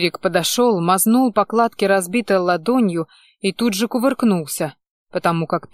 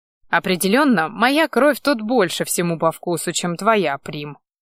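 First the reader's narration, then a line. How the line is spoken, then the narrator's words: Sorcerer's amused grunt. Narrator (Russian): хмыкнул чародей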